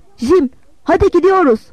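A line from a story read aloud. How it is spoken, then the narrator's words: Shouting. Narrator (Turkish): diye bağırdım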